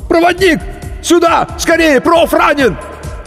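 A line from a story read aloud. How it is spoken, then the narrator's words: Someone screaming. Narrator (Russian): Кто-то завопил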